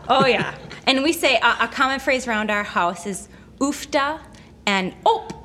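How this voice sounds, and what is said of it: Strong Norsky accent. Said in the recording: “your Norsky accent ... I have the most Norsky accent of all of us”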